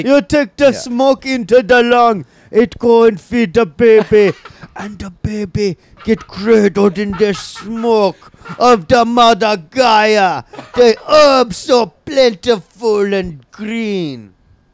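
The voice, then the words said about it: Put-on Jamaican accent. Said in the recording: “your natural Jamaican accent”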